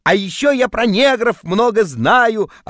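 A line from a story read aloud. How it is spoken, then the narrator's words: Shouting in sleep. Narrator (Russian): орал я во сне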